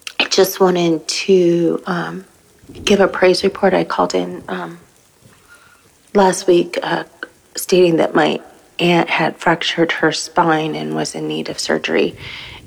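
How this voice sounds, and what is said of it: Congested voice from a cold. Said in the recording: “I have a bit of a cold.”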